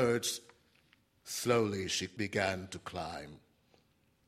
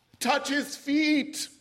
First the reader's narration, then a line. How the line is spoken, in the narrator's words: somebody shouted in a moment of inspiration